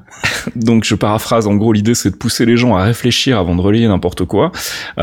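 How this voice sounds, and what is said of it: Slight Belgian French accent. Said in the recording (French): “ton petit accent belge”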